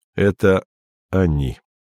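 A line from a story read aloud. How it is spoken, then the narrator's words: Plain. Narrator (Russian): сказал он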